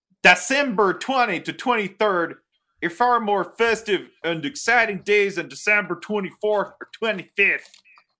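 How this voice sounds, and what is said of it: Exaggerated Pittsburgh Yinzer accent. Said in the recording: “doing the accent. ... I will read it once in English and once in Yinzer. ... I will now read this for our Yinzer listeners. ... It turned into Swedish Chef”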